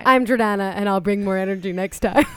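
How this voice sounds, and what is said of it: Lower-pitched, low-energy imitation of another person. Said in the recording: “your voice dropped an octave when you were just doing an impression of me ... right now you have low energy. People with low energy aren't like speaking at high octaves.”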